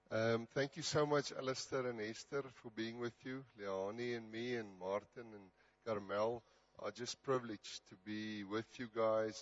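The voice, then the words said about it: Weakened, strained voice. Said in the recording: “My voice is a bit not with me that much, but the Lord has at least improved it, so it was worse.”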